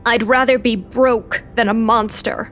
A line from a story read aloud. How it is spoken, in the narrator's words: Lou growled